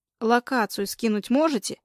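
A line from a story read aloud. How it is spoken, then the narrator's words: Loud and clear. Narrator (Russian): Громко и четко выговаривает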